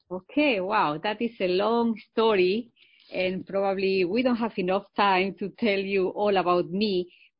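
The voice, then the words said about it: Spanish-accented English. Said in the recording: “I think it's very obvious that you have an accent ... I am originally from Spain”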